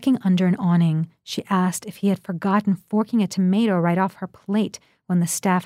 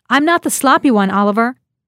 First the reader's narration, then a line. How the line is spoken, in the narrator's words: In the downpour, her voice sounded strange to her as she shouted into the phone